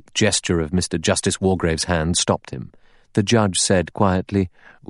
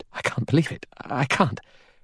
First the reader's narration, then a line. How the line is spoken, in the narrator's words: Vera murmured